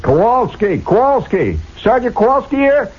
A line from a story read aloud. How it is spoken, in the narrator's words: When somebody hollers